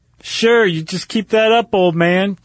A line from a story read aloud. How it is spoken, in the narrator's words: Johnson called out again